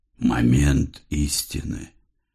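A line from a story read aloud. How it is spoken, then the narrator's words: Muttering. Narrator (Russian): пробормотал Тезей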